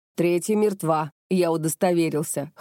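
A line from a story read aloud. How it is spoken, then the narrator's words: Smirking grunt. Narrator (Russian): хмыкнул Макото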